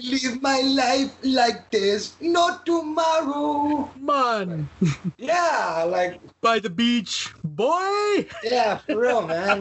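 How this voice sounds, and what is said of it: Mock Jamaican accent. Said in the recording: “his phony Jamaican accent”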